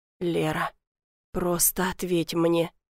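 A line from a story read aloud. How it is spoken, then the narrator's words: Quiet pleading. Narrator (Russian): тихо просит Богдан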